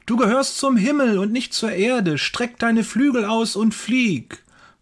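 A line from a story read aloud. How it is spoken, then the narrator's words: Calling out. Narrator (German): ruft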